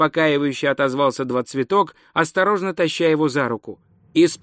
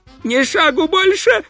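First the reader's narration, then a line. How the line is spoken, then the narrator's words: Shrieked. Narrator (Russian): взвизгнула она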